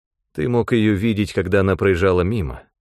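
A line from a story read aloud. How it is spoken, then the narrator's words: Plain. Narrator (Russian): сказал я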